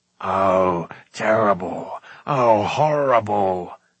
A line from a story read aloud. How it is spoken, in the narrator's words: moaned Gurgi